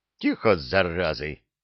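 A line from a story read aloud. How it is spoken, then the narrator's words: Bark. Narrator (Russian): рявкнул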